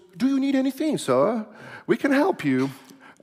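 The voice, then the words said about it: Put-on British accent. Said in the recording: “my British accent impersonation.”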